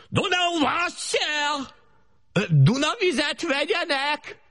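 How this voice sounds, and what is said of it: Loud shouted water-carrier street cry. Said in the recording (Hungarian): “nagy harsány szóval bekiáltottam a kapun azon a hangon, ahogy a vízhordó emberek szoktak kiáltani”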